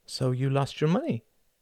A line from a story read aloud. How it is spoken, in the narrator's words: he said softly